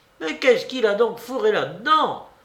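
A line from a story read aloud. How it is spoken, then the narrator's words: Angry exclamation. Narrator (French): s'écria avec colère Elena Ivanovna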